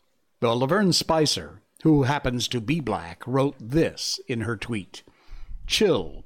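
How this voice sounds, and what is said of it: Usual voice. Nothing is said of it.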